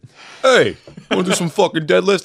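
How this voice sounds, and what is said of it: Cuomo impression. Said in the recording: “Cuomo impression ... wrong Cuomo”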